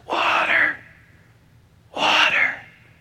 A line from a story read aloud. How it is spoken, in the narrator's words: to barely to mutter out the words